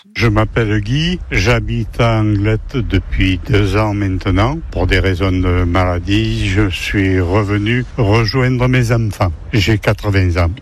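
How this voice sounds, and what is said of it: Singsong southeastern French accent. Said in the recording (French): “un accent chantant, plutôt du sud-est”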